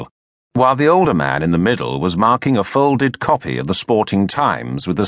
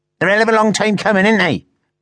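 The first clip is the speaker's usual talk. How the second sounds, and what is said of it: Nasal Forest of Dean accent. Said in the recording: “he complained in a nasal version of a Forest of Dean accent.”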